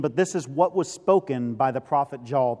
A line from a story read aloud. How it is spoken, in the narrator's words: Peter says